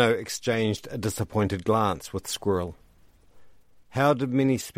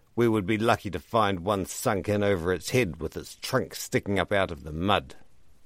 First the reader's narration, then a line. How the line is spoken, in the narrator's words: Ribbreaker snorted